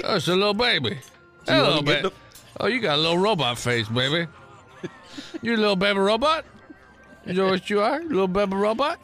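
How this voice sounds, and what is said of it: Put-on druggy character voice. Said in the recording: “your accent and how you're acting ... This is my drug voice. ... I would have breathing problems”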